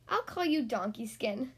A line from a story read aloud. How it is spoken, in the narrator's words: laughed the woman